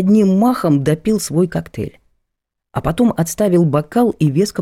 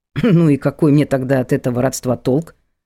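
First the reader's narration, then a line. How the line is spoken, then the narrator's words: Skeptical snort. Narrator (Russian): хмыкнул я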